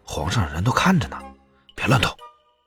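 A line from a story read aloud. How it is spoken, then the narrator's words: Low voice. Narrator (Chinese): 齐威果然低声的说道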